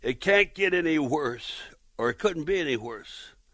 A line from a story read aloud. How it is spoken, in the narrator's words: she yells out